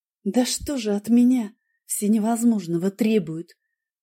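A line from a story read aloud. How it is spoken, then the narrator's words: Whispered. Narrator (Russian): прошептала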